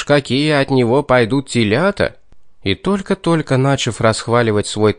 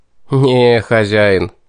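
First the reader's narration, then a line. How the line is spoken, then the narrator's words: Laughing. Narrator (Russian): рассмеялся я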